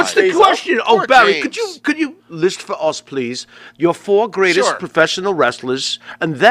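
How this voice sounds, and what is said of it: Usual voice. Nothing is said of it.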